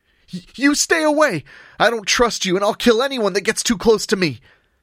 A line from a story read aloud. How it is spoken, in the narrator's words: the boy screamed